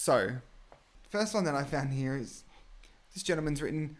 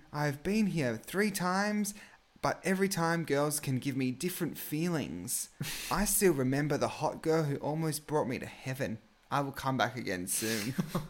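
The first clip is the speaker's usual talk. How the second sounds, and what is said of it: Weird put-on accent. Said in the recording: “I love your weird accent that you've put on.”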